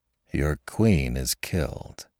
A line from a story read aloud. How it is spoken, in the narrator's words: remarked Chekalinsky quietly